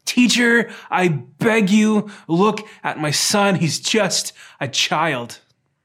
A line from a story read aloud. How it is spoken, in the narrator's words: He screams at the top of his lungs over the crowd